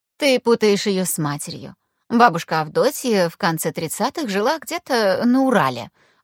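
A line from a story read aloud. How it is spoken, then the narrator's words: Lecturing teacherly tone. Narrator (Russian): учительским тоном начала Лидия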